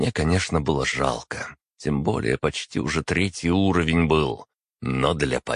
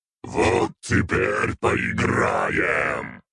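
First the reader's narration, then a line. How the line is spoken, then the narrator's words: Growled. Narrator (Russian): рыкнул я Стивену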